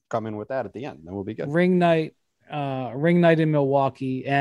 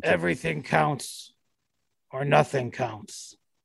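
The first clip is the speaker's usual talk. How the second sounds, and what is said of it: Imitates another person's voice. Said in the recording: “That's my Tibbs impression.”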